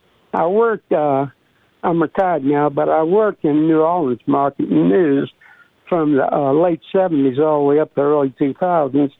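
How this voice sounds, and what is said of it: New Orleans Chalmatian accent. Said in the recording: “it's got that Brooklyn accent... So I got a little bit of that, you know, Chalmatian accent.”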